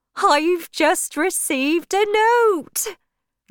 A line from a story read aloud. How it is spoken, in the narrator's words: Joan Durbeyfield cried